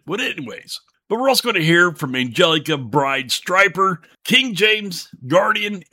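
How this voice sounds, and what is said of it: Slightly messed-up, rough voice. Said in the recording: “my voice is getting a little bit messed up because of a cold front”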